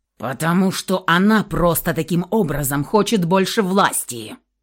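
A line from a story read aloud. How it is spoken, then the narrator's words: Growled. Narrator (Russian): прорычал Михаил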